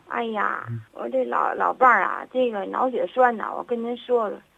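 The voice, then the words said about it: Tianjin accent. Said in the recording (Chinese): “听您这口音，您是哪儿人呢？...我一听您这口音就知道是天津人。”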